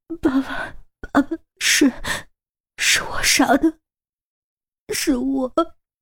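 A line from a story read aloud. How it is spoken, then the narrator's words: Sobbing, broken, choking. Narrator (Chinese): 陈玲玲再也忍不住，心理防线彻底崩溃，哇的一声哭了出来，一边捂着嘴嚎啕痛哭，一边断断续续哽咽着说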